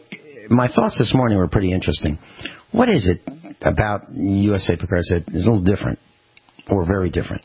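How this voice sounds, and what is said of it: Slightly hoarse voice. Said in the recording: “My voice is a little hoarse”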